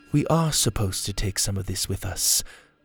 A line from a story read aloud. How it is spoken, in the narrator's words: Mora whispered